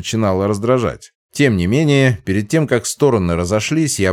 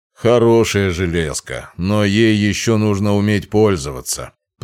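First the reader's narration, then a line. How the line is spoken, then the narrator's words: Booming baritone. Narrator (Russian): прогудел баритоном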